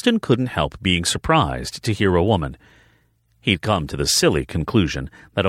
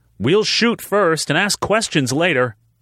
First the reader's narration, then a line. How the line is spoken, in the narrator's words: a female voice yelled